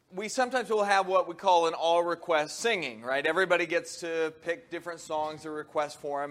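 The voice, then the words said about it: Hoarse, deeper, partly lost voice. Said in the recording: “I have half a voice this morning ... when I lost my voice ... I kind of dropped to the deeper range, I sounded more serious”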